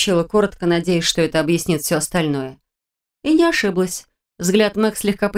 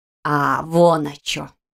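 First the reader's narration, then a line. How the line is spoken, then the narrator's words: Drawn-out drawl. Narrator (Russian): протянула Мэг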